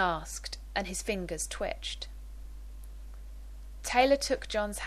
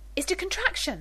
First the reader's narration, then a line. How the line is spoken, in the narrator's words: Rodney asked breathlessly